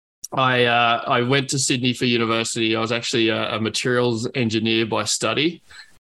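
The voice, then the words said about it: Australian English accent. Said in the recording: “the accent is obviously Australian for those that are obviously maybe comparing it to South Africa or New Zealand”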